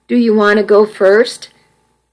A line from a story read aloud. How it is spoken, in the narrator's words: Kirk asked Jacob